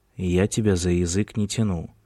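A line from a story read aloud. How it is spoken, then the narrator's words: Gloomy. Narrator (Russian): мрачно сказал Кристофер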